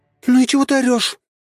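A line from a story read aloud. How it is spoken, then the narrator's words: Sudden screaming. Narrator (Russian): вдруг завопила Василиса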